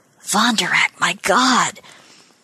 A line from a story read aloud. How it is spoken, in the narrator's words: Someone murmured